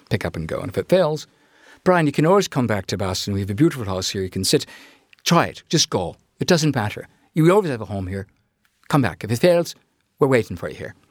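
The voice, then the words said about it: Imitated Irish brogue. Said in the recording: “my grandfather's terrible, you know, my impression of my grandfather's Irish brogue.”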